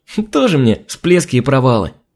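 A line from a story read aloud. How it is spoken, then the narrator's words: Cheerful giggling. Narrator (Russian): весело захихикала Алина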